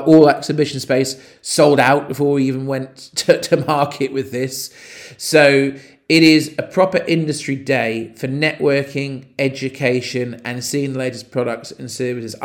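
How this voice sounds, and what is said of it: Excited, enthusiastic speaking voice. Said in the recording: “I'm really excited about it, which I'm sure you can probably tell from my voice.”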